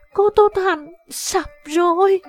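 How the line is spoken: Trembling panicked cry. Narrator (Vietnamese): Tây Thi run rẩy, từ tiềm thức nàng có sự run sợ, nàng thất thanh kêu lên

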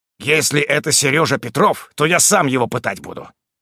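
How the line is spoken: Angry hiss. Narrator (Russian): Злобно прошипел

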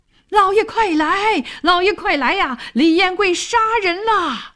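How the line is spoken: Loud alarmed shout. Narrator (Chinese): 抱住自己的那人高喊

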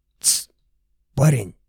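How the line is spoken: Man whispering. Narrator (Russian): зашептал дядечка

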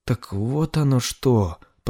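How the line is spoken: Embarrassed mutter. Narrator (Russian): пробормотал Годфри, немного сконфуженный, что дал себя так легко провести

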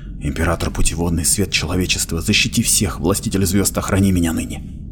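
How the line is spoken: Whispered prayer. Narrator (Russian): Эперлиант шептал

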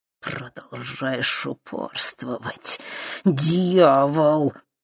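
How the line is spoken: Through gritted teeth. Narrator (Russian): процедила сквозь зубы мадам Анаит

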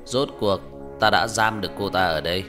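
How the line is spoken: Old man laughing loudly. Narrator (Vietnamese): Ông cụ cười to

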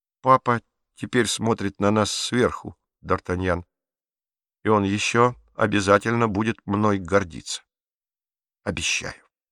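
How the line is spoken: Unusually calm. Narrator (Russian): необычайно спокойно произнес

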